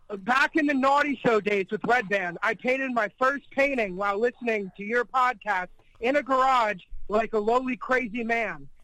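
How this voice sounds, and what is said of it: Heavy Philadelphia accent. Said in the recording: “You got a pretty heavy Philly accent”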